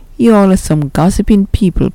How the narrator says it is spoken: Pastor Richardson said with a chuckle

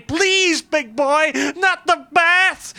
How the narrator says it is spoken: He wailed and begged for mercy, humiliated in defeat and screaming like a baby

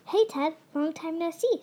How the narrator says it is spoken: squeaked Ralph

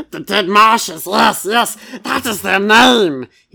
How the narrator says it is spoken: he cackled

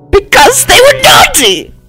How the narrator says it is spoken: He screamed with that scary voice only men can do

